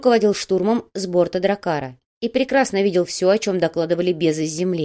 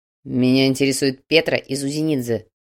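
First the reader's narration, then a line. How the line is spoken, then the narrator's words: Growling. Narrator (Russian): прорычал Слановский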